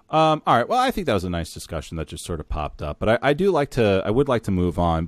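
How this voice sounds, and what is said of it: Tired, fatigued voice. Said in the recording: “a lot of the fatigue that you hear in my voice. I'm just tired.”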